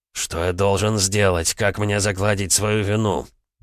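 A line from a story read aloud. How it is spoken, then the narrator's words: Strained. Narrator (Russian): выдавил из себя Свиблов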